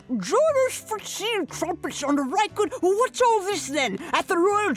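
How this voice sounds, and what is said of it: Put-on posh British accent. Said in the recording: “British accent ... regal it up ... get royal ... turn up your nose”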